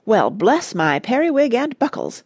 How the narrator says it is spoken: gasped Wensleydale

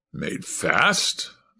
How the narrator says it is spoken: snarled back

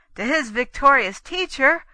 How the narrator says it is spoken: Tancred cried

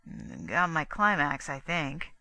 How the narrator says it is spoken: Gusterson mumbled

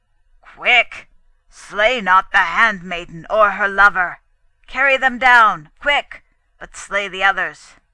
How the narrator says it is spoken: from below Luger's own voice roared

